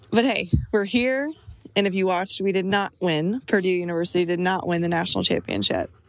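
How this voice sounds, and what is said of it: Slightly hoarse, tired voice. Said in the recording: “I'm exhausted. I've lost my voice a little.”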